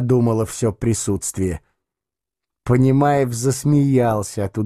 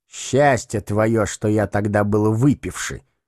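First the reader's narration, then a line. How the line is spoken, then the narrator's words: Grumbling aloud. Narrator (Russian): проворчал он вслух вслед Велилептову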